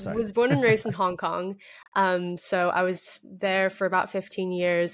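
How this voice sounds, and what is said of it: American accent. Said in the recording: “like you, I have an American accent.”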